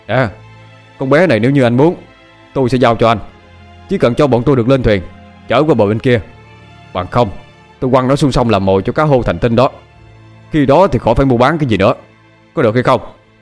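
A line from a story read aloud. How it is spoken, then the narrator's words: Reply. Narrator (Vietnamese): Phúc Nguyên đáp trả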